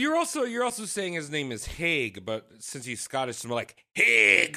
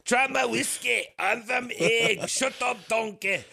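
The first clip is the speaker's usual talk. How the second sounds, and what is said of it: Shrek character voice. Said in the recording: “your Shrek impression”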